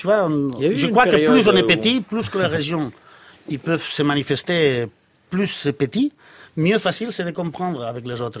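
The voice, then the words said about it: French with a Catalan accent. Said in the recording (French): “votre accent que vous entretenez, l'accent catalan”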